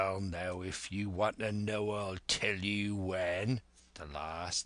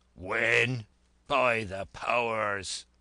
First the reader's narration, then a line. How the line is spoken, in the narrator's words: cried Silver